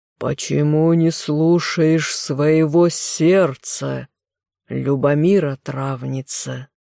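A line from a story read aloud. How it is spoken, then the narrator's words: Rumbling giant's voice. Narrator (Russian): Великан пророкотал человеческим голосом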